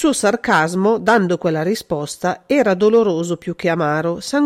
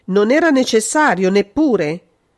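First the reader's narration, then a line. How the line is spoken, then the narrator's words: Brutal policeman-like exclamation. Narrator (Italian): esclamò, con brutalità da poliziotto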